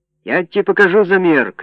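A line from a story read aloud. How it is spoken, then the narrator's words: Old man shouting. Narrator (Russian): крикнул старик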